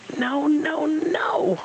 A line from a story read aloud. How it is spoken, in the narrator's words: Rabbit screamed